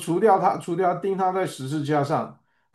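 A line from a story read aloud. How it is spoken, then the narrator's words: Crowd shouting. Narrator (Chinese): 犹太的百姓喊着说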